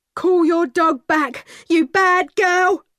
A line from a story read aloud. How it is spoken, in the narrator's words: He shouted